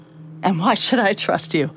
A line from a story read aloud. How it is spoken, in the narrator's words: I said it sharply, far more sharply than I normally would have